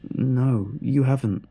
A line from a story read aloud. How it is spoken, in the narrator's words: The shock of his words caused me to stutter out a reply